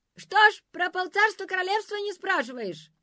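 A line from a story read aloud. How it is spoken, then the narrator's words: Shouting after. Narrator (Russian): закричал им вслед Пиф-Паф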